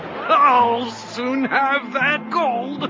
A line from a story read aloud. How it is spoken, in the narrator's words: cried the man